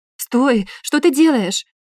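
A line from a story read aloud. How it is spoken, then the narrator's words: Alarmed cry. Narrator (Russian): вскрикнула Анна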